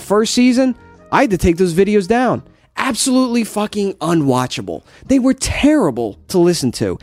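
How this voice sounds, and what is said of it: New Jersey accent. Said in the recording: “This is not a made-up accent. This is not a phony accent... when I get excited, the Jersey just comes right out of me... the Jersey thing”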